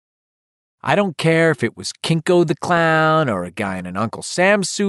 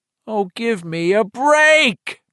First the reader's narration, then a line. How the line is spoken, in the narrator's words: Boutillier roared